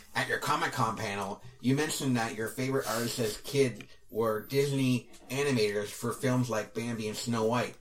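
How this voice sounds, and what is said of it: Nerdy put-on voice. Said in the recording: “I'll do my nerd voice.”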